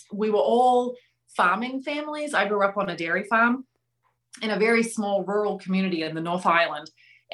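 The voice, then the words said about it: New Zealand accent. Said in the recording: “where's your accent from? ... I was born and raised in New Zealand”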